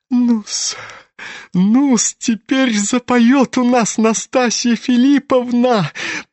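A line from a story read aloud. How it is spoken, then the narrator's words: Giggling. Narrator (Russian): хихикал чиновник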